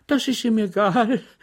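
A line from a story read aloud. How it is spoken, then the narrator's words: Amused laughing woman. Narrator (German): lachte die Landsmännin, die letzte Frage für einen misslungenen Witz hielt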